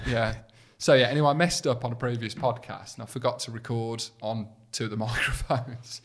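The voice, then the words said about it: Birmingham accent. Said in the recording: “you can't use the word faux pas if you're from Birmingham ... not with your accent ... It's all right saying it if you don't sound like you.”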